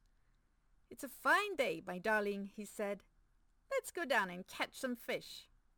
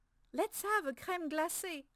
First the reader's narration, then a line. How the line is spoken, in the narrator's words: I cried